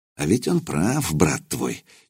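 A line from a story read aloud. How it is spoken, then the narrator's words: Quietly spoken. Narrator (Russian): негромко произнес Лузгай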